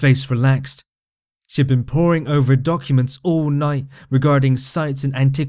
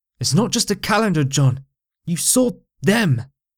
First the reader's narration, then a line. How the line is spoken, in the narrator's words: expressed sharply